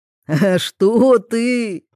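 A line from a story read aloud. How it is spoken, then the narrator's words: Laughing. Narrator (Russian): рассмеялся Федор Вениаминович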